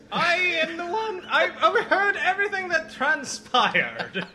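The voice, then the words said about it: Irish accent. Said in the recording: “with an Irish accent, no less.”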